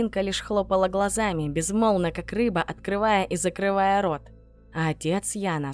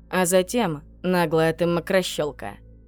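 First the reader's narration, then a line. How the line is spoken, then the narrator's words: Perfectly even tone. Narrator (Russian): все тем же абсолютно ровным тоном ответил Бурхаев-старший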